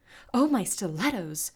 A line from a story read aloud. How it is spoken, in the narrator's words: Crystal gasped